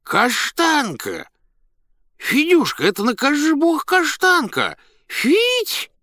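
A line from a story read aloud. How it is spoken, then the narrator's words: Loud calling, child and man. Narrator (Russian): два голоса, один детский, другой мужской, громко позвали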